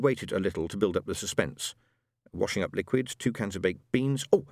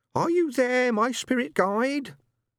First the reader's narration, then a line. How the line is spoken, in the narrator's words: in a high-pitched, quavery voice